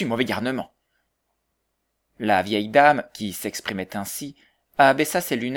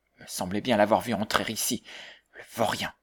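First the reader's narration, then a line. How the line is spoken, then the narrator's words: Murmured. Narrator (French): murmura-t-elle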